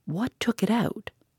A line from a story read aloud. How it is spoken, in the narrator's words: he spoke in a fierce half-whisper